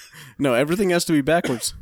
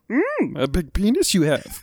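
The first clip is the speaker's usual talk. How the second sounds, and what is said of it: Kermit-like puppet character voice. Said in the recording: “That came out like Kermit for some reason.”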